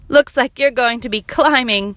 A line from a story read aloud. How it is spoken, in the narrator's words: They laughed, saying